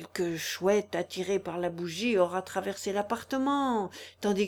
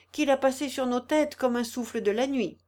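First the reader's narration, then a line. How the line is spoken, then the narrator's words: Exclaimed. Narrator (French): s'écria Amélie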